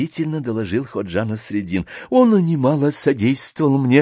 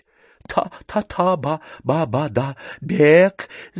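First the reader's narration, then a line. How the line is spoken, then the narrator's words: Numb-tongued babbling. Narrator (Russian): залепетал несчастный одеревеневшим языком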